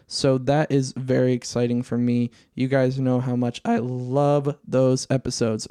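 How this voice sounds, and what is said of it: Cracking, worn-out voice. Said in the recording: “my voice cracking here. I think my voice is coming to an end”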